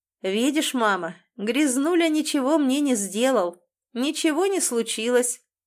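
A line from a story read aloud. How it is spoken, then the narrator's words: Tipsy, laughing speech. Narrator (Russian): Он немножко захмелел, или множко, засмеялся и сказал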